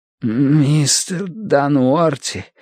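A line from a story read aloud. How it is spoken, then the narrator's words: Rasping. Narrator (Russian): прохрипел Бадри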